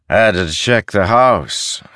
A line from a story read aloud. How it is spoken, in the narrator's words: said a man his voice slurred